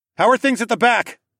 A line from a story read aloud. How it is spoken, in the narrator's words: I yelled across the room to Heywan